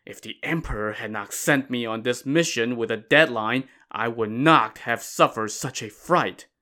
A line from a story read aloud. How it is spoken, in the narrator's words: he complained grumbling